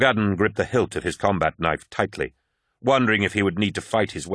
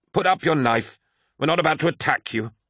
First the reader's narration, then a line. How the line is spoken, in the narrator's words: snapped Malachurst, seeing the tension in his eyes